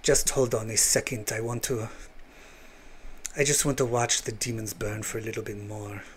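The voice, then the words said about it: Poor attempt at Russian accent. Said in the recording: “That was supposed to be a Russian accent ... how bad I am at accents ... you thought I was doing a Latin accent”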